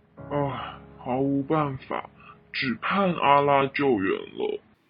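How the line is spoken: Sighing. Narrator (Chinese): 他叹道

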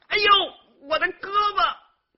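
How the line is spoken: Shouting. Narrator (Chinese): 售票员的喊叫声

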